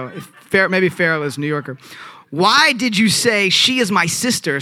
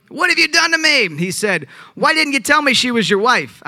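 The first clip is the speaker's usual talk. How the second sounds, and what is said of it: Put-on New York accent. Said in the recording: “I did that in a New York accent”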